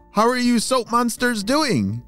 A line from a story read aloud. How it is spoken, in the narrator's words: she shouted